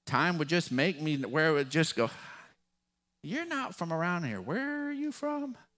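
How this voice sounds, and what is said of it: West Texas drawl. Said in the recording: “my West Texas drawl ... I would sound less Texan”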